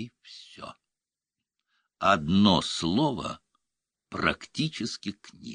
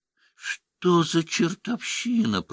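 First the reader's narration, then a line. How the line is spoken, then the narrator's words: Babbled. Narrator (Russian): пролепетала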